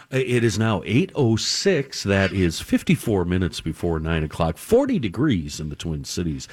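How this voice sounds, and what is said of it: Announcer-style radio voice. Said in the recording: “I'm talking in this radio voice, and now I can't get out of it.”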